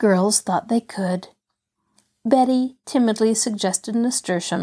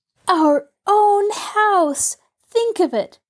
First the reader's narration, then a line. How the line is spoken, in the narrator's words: cried Betty